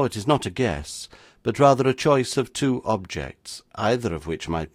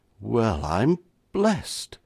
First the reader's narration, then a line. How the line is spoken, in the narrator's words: cried his lordship agape